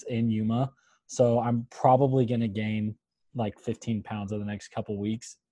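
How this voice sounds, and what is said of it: Sick, slightly deeper voice. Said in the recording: “He is sick. You would not know that ... is sick... my voice is a little deeper... You got more of a radio voice today.”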